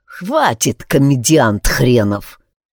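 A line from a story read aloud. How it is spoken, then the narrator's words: Muttered through teeth. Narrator (Russian): процедил один из деревенских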